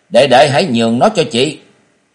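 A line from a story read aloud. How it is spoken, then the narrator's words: Impatient shout. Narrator (Vietnamese): La Thúy Đại nóng lòng quát lên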